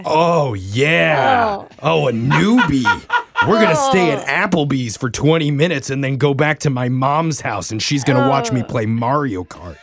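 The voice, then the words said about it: Mock voice of a dating-app guy. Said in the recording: “do an impression right now of a guy seeing fresh meat on a dating app”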